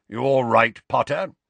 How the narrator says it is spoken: grunted Moody

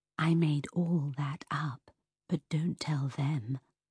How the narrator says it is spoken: she whisper in my ear

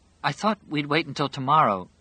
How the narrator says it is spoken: she began timidly

